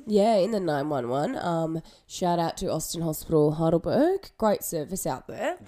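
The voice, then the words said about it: Congested voice with a cold. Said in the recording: “I've had a cold for about 2 weeks, which you guys can probably tell in my voice.”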